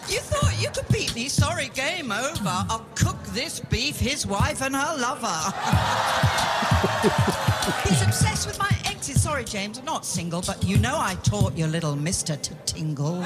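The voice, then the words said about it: British accent. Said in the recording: “everything sounds so good in that British accent ... it just really is cute”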